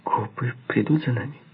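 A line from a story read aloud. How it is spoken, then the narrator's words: Frightened question. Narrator (Russian): испуганно спросила Веда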